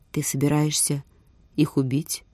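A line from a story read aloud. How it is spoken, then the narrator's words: Calm question. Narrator (Russian): спокойно спросил Скар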